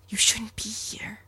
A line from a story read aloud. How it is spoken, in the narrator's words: The black air weighed in on him, whispering